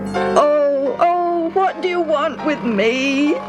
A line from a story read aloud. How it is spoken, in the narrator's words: He wailed